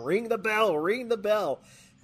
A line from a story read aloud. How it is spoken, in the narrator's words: Bobby the Brain Heenan screaming